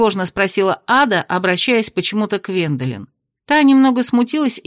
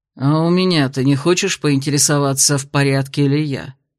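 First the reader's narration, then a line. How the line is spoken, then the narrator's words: Pointed grumbling. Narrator (Russian): показательно заворчал Дейрон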